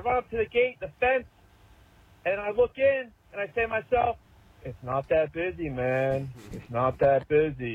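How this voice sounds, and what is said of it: Philadelphia accent. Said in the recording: “I noticed the Philadelphia accent in there”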